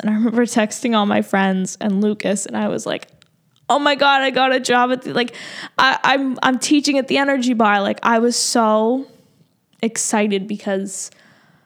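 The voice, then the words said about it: Tearful, crying voice. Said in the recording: “I sound like a loser crying”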